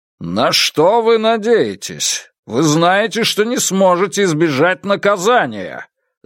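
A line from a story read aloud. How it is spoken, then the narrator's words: Commanding shout. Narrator (Russian): закричал он как можно более властным голосом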